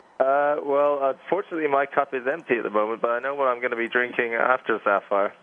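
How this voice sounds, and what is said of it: English accent. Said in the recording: “as you can tell by the accent, I'm from England”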